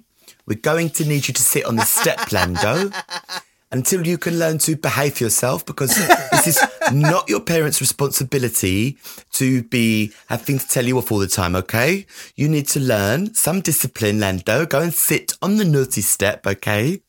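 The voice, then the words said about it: Imitation of a woman's scolding voice. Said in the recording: “I'm trying to do her voice”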